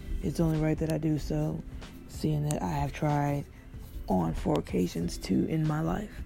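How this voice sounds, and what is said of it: Sick-sounding voice. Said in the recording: “Sorry about my voice. I'm actually very sick”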